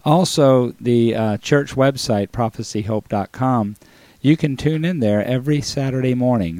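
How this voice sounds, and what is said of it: Slightly hoarse, strained voice. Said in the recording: “apologize for my voice ... I've had a sore throat today ... it's messing with my voice a little bit. So if I don't sound like myself”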